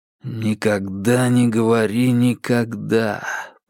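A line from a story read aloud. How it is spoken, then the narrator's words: Silent thought, through teeth. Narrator (Russian): процедил Игорь мысленно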